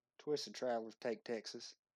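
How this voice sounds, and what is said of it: Put-on Southern Texan accent. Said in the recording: “you gotta say that like a Texan ... I want your best Southern accent ... Oh, that was pretty good.”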